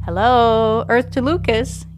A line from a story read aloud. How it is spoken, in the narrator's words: giggles Magpie